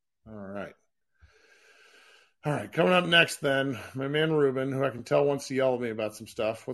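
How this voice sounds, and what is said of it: Rough, unwell-sounding voice. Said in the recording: “I'm glad your voice is recovered. ... No, it's still shitty.”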